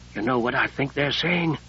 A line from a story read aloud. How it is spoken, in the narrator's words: Sable whispered